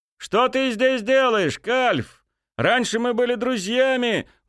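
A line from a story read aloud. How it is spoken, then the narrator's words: Shouted out. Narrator (Russian): выкрикнул Олаф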